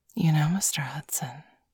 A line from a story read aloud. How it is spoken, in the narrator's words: she whispered in Bailey's ear